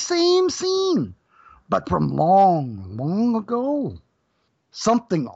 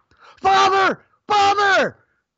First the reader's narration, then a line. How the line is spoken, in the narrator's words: Gyaneshwar shouted